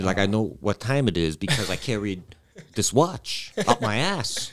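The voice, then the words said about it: Christopher Walken impression. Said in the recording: “your Christopher Walken impression ... That was really good.”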